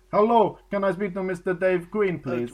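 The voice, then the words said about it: Put-on foreign accent. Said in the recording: “Why have you gone foreign? ... I'm putting on the voice. ... It's a foreign voice.”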